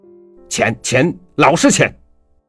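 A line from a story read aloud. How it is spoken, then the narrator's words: Almost angry, sudden. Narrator (Chinese): 男的忽然转过脸，对着女的几乎是愤怒的说道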